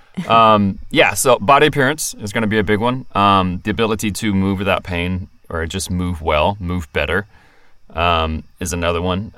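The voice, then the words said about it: Speaks with a non-local accent. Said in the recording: “Not from here originally, if you can't tell from my accent.”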